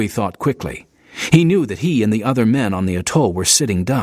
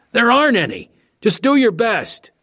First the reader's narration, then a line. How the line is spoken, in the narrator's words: yelled back